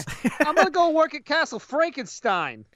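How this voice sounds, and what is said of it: Thick Bronx accent. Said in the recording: “not even like a Brooklyn accent. It's a thick fucking Bronx accent.”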